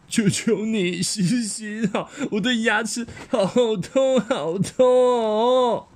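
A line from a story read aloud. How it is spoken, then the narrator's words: Sobbing. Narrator (Chinese): 他哭得眼泪鼻涕直流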